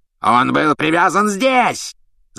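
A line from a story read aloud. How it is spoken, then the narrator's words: Furious yell, executioner. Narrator (Russian): с бешенством заорал палач Макнейр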